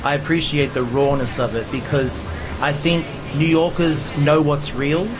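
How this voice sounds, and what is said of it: Mild Australian accent. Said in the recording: “the Aussie accent ... it's not as strong as it used to be”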